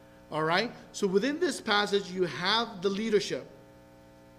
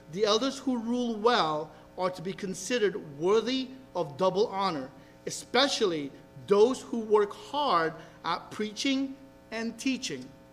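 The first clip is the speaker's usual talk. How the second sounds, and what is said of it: Reading very slowly. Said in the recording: “gonna read this really slowly”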